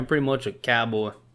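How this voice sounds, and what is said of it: Put-on country cowboy accent. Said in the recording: “look at the accent I just did.”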